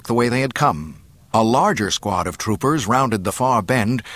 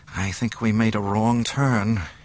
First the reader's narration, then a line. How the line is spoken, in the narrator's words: murmured